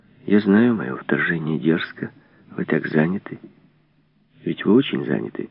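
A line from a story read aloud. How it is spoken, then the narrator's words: Low undertone. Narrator (Russian): она начала вполголоса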